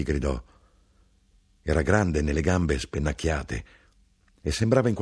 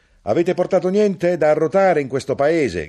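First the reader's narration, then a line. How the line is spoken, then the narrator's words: Shout. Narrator (Italian): gridò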